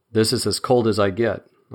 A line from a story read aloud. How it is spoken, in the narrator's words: I said cheerfully